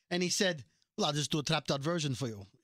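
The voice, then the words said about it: Poorly done put-on accent. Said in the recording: “I'm doing a terrible accent,”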